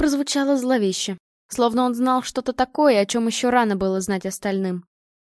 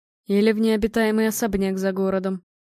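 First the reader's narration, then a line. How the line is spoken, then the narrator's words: Gloomy, lost. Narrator (Russian): мрачно добавил Владимир, который все еще выглядел потерянным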